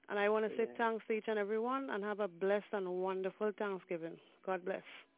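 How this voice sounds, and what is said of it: Trinidadian accent. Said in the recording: “I love to hear that beautiful accent ... Originally Trinidad and Tobago.”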